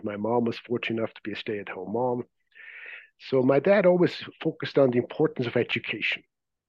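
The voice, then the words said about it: Swiss accent. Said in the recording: “As you may be able to detect from my accent, I wasn't born here. I grew up in Zurich, Switzerland”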